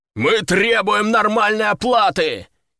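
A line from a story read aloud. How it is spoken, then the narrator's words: Shouting, crowd echoing. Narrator (Russian): кричал заводила, и толпа вторила ему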